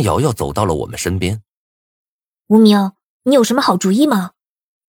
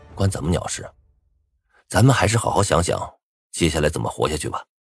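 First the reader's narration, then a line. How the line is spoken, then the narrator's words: Calm, detached. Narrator (Chinese): 我淡淡的说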